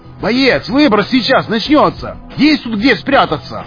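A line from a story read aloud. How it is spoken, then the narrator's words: Shouted. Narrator (Russian): Прокричал неизвестный гость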